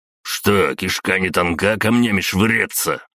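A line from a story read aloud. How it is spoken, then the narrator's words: Growl. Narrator (Russian): прорычал Богдан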